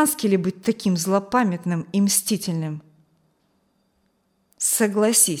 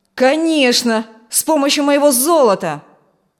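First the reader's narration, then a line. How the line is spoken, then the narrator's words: Yelled. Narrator (Russian): заорал Фрэнк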